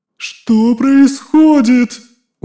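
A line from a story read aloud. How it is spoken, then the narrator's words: Unrestrained shout. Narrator (Russian): Уже не сдерживаясь, закричала Физи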